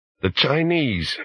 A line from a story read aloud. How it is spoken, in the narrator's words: bellowed a drunken Australian